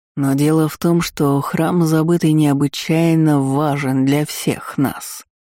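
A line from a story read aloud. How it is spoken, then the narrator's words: Insinuating. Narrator (Russian): вкрадчиво продолжил Мелроза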